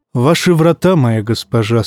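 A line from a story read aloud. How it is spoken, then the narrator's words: Plain. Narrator (Russian): сказал певец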